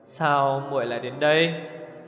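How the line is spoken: Smiling. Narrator (Vietnamese): mỉm cười

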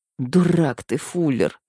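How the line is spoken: Resigned moan. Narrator (Russian): обреченно простонала я

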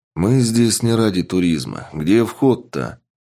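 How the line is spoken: Callous man grumbling. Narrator (Russian): проворчал черствый мужчина

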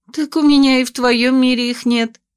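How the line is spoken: Laughing. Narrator (Russian): рассмеялась я

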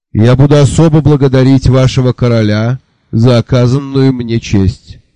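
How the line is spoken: Booming thunderous voice. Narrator (Russian): громовым голосом поведал нам Алотхо Аллирох

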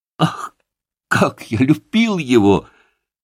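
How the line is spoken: Exclamation. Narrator (Russian): воскликнул Коль

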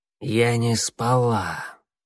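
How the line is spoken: Quiet. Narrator (Russian): тихо сказала Щербатая

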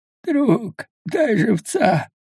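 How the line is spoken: Hoarse croak, lying man. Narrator (Russian): прохрипел лежащий мужчина

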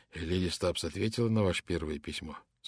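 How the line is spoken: Plain question. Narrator (Russian): спросил инспектор

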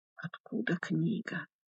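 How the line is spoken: Silently mouthed whisper. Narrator (Russian): одними губами прошептал монах

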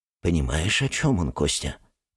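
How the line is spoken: Whispering. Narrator (Russian): нашептывает Божье ничто

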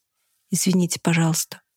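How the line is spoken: Quiet. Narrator (Russian): сказала она тихо

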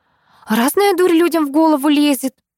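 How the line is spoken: Sighing woman. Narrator (Russian): вздохнула собеседница

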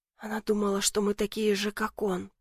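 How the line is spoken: Whispered. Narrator (Russian): прошептал я

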